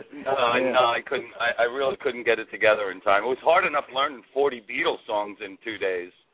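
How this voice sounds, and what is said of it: Worn-out, strained hoarse voice. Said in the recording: “you can tell my voice is a little shot from singing Helter Skelter for 3 nights”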